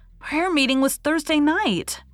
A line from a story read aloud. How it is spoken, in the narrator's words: cried Faith